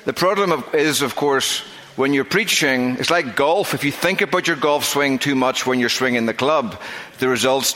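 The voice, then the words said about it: Northern Irish accent, slow speech. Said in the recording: “it's not just my accent. ... I was born with a fairly significant speech defect ... that makes me at times difficult to understand, especially even for people in Northern Ireland ... I do try to speak slowly”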